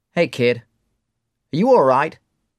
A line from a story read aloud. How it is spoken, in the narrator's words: Mark asks